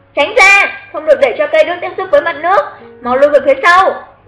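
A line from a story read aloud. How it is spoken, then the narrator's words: Loud urgent shout. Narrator (Vietnamese): Xuất Trần vội lớn tiếng hét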